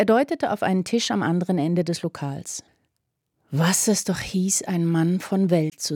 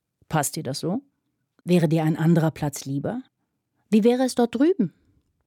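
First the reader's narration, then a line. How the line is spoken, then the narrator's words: Very calm question. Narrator (German): fragte Fanny ganz ruhig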